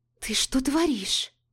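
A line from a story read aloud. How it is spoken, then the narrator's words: Hissed through moans. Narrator (Russian): Прошипела сквозь стоны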